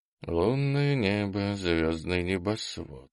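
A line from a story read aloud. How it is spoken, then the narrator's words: Warrior singing softly. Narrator (Russian): вполголоса запел дружинник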